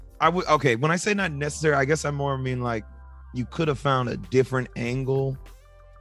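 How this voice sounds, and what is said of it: Usual voice. Nothing is said of it.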